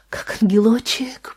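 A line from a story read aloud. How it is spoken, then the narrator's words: Whisper. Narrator (Russian): прошептала Анна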